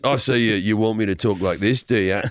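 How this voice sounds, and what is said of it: Put-on Australian accent. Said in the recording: “The Australian accent has never done it for me before, but on him ... do the Chris Hemsworth voice”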